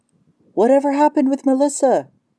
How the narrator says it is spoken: she called out

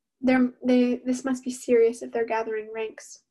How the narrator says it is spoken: Sarah said, her voice a broken melody

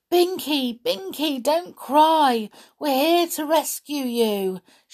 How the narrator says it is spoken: shouted Peter, hoping that Binky would hear his voice, for it was a very small one now

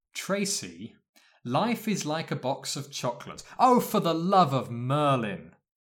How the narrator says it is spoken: He chuckled

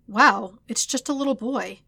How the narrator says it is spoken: Yamcha exclaimed

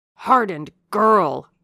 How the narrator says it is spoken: exclaimed Miss Scratcherd

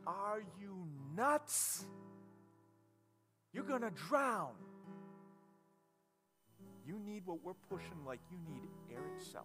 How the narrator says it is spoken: the world around us would scream out to us

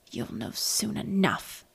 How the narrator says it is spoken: growled

